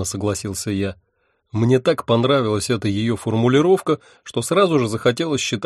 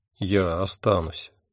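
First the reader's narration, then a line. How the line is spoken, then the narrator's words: Soft. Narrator (Russian): мягко сказал я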